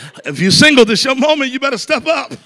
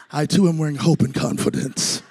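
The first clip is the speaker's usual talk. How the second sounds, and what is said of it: Lowered, deeper voice. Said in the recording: “Lower your voice.”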